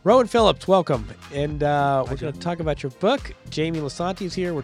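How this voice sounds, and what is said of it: Voice slightly congested from cold. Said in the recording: “I have a bit of a cold.”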